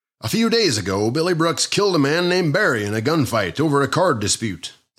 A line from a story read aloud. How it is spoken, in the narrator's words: the proprietor said